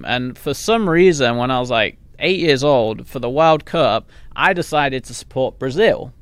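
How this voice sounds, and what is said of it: English accent. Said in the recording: “I came from England where obviously, you know, that's the accent”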